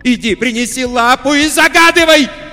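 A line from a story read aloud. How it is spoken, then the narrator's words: Shout. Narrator (Russian): закричала она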